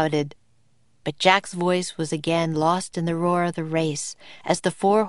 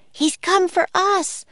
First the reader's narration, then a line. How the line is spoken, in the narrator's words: cried Annie